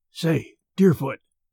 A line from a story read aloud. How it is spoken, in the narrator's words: whispered Merritt